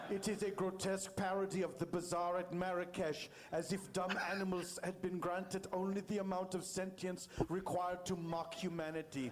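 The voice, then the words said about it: Werner Herzog impression, imperfect accent. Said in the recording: “the accent could be better, but it's a very funny text ... Herzog ... he could have done the accent better”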